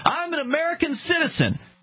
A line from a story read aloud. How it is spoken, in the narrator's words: She had been yelling